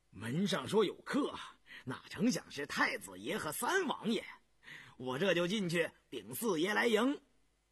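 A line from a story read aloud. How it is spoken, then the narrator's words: Laughing. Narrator (Chinese): 高福笑道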